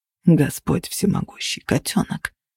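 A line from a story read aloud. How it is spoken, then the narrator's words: Muttered. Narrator (Russian): пробормотал Кости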